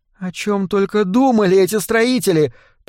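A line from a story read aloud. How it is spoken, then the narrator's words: Groan. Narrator (Russian): простонала Морена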